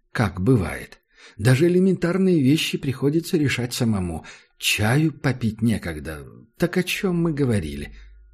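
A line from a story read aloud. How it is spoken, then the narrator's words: Sigh. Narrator (Russian): Макс вздохнул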